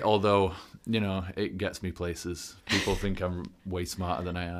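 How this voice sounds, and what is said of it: English accent. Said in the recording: “Are you from the UK or Ireland ... I'm from the UK ... Almost not an English person. Haven't shaken that accent”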